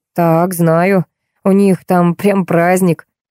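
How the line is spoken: Slightly offended drawl. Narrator (Russian): слегка обиженно протянул Плотников

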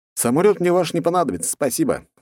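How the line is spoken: Smirking. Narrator (Russian): хмыкнул я

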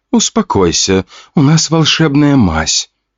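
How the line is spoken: Calm, gentle. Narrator (Russian): спокойным ласковым голосом говорила апельсинки

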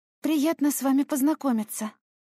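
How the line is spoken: Shy sigh, smiling. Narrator (Russian): вздохнула я, робко улыбнувшись

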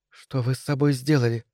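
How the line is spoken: Whisper. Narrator (Russian): прошептала я

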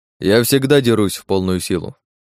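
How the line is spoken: Calm ghostly reply. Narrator (Russian): спокойно ответил призрак

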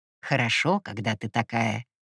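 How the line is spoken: Quiet remark. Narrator (Russian): тихо обронил он

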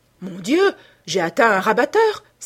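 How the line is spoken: Exclaimed. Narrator (French): s'exclama Sir Geoffrey

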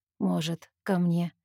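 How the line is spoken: Hoarse question. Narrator (Russian): хрипло спрашивает Илья

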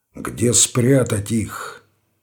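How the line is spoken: Quiet tearful question. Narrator (Russian): Ганс заплакал, тихо спросил

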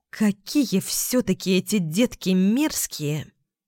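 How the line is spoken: Through gritted teeth. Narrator (Russian): процедила Луна

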